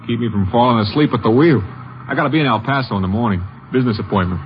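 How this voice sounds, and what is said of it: New York accent. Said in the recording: “New York. Guess the accent sticks out, huh?”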